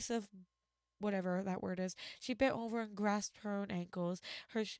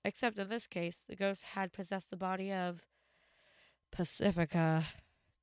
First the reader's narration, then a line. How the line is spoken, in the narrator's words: Dipper groaned